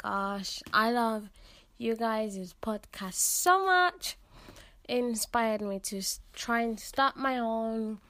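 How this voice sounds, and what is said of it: British accent. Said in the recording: “I love your accent ... I love the accent ... Teenager therapy, but make it British ... So this accent, is British.”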